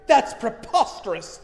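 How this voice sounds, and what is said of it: Funny put-on British accent. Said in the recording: “say them with a funny accent? ... it demands kind of a funny British accent”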